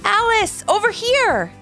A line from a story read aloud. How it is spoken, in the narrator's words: Levi called out